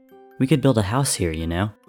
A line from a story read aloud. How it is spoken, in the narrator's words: George said quietly